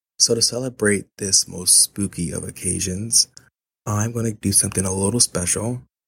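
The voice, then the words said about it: Slightly sick-sounding voice. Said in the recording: “I sound a little sick ... my immune system is on weak”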